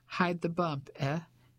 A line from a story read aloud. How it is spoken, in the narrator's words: she chuckled